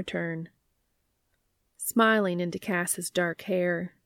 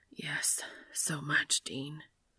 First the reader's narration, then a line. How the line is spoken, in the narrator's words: Dean whispers into Cass's ear